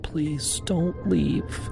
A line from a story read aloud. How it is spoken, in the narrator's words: she whispered